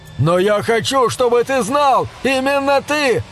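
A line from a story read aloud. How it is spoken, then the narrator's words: Desperate struggling yell. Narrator (Russian): отчаянно вопил Хэнк, вырываясь из рук своего патрона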